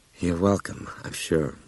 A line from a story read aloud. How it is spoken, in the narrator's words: Brian murmured